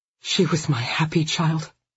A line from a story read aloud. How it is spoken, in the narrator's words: the woman whispered